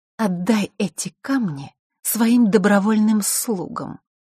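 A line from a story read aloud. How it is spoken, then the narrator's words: Queen speaking through teeth. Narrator (Russian): процедила рыжеволосая королева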